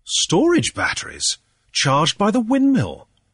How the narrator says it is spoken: exclaimed

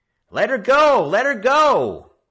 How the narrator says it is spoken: Frisco Kid shouted

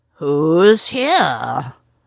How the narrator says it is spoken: said a sea lion gruffly

